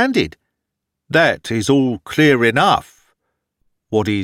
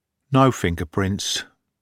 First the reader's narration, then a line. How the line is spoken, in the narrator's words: said in a disappointed tone